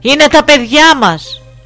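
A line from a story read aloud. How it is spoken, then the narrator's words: Group shouting. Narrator (Greek): φώναξαν όλοι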